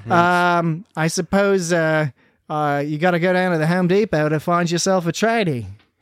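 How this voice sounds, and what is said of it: Weak attempt at Australian accent. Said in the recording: “I can't do a proper Australian accent, so I'm doing my best.”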